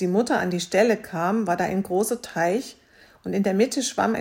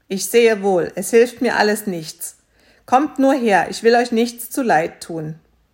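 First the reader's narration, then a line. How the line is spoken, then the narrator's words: Calling out. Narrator (German): rief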